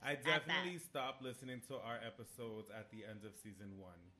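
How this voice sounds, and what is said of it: Speaker's own accent. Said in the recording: “I have an accent. I, you know, talk ghetto.”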